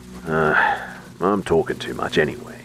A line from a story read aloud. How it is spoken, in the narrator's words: he grumbled